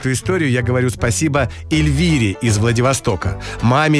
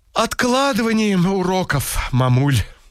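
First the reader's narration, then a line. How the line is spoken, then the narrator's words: Sighing, then speaking. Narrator (Russian): Настя вздохнула и сказала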